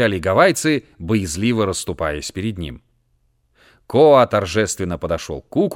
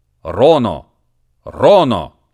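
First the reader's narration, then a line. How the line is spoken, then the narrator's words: Deafening shout. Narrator (Russian): оглушительно крикнул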